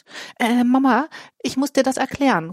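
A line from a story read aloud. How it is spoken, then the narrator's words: Calling out. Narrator (German): ruft Ole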